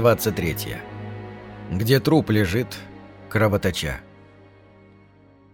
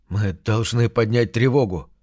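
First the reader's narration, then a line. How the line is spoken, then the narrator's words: Trembling mutter. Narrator (Russian): дрожащим голосом пробормотал Осмонд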